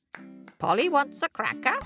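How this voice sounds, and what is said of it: Squawky parrot character voice. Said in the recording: “could do a parrot voice. ... I'm not very good at it.”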